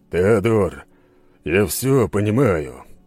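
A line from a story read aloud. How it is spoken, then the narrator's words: Tired speech. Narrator (Russian): устало произнес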